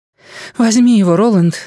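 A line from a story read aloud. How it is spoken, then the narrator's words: Breathed out. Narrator (Russian): выдохнула Дженна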